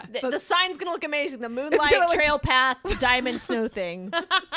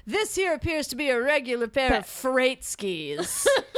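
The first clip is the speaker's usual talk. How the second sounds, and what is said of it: Rod Serling impression. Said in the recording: “his Rod Serling impression.”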